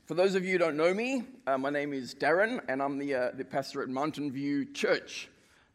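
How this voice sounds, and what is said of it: South African accent, fairly fast speech. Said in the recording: “I was born and raised in Africa, so this accent will be a little bit strange to you... South Africans tend to speak quite fast.”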